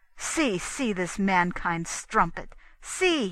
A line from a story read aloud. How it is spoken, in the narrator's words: he cried